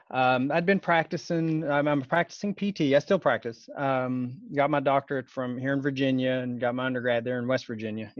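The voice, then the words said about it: Slight Southern American accent. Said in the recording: “If you hear a little Southern there, some people say it sounds Southern.”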